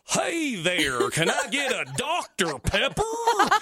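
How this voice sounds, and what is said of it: Put-on American cowboy-style accent. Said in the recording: “he would do an American accent, and it was John Wayne.”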